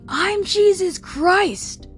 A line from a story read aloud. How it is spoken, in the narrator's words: yelling